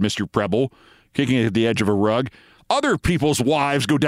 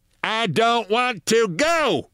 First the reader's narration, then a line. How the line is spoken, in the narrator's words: shouted Mrs